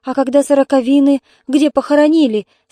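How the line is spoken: Asking, holding back sobs. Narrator (Russian): спрашивала Валентина, сдерживая рыдания

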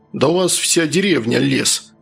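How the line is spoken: Angry. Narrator (Russian): зло сказал Луканов

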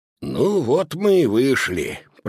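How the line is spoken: Grumbling mutter. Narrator (Russian): пробурчал Рампье

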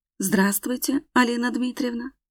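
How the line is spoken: Dejected voice. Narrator (Russian): Говорю поникшим голосом

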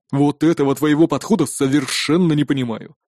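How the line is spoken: Snorting. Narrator (Russian): хмыкнул Магнус

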